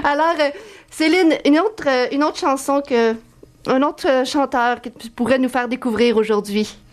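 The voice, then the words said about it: Québécois French accent. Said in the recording (French): “une Québécoise en studio ... Tu comprends mon accent”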